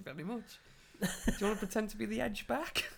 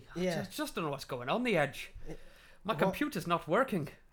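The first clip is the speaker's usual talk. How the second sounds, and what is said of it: Vague put-on accent, origin unclear. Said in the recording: “I'm trying to do an accent. ... what accent is that? ... I'm doing an accent. I don't know where it is, but I went for it. ... 10 out of 10 for effort.”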